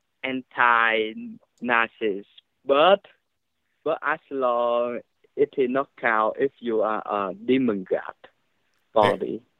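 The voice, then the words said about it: Speaks with a slight accent. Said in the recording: “Had a little accent”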